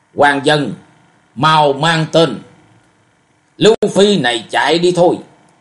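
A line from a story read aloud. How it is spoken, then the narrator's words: Loud barked command. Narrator (Vietnamese): Một trong bốn võ sĩ quát to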